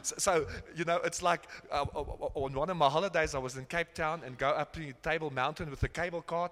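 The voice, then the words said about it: South African accent. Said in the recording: “in Europe, they hear my funny accent ... I come from South Africa”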